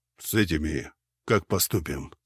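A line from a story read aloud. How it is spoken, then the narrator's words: Plain. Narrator (Russian): спросил Гвидон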